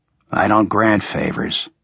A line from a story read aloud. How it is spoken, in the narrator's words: I said calmly